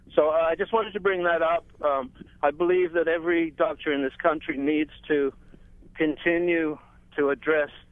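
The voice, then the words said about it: English accent. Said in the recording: “You may detect an English accent.”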